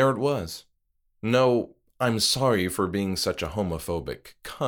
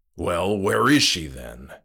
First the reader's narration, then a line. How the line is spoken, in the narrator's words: he snapped